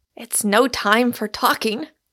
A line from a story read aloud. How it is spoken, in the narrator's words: cried Michael Moon